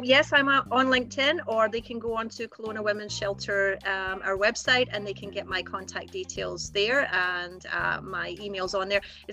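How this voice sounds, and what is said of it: Speaks with a noticeable accent. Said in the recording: “with this accent, the vowels don't come out right”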